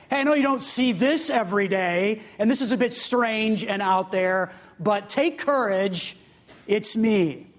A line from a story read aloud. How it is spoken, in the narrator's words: in a really deep, big, booming voice